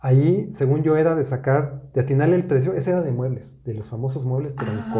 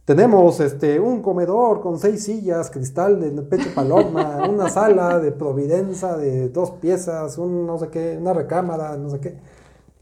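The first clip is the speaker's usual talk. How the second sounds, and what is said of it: Announcer-style voice. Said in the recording (Spanish): “con voz de locutor”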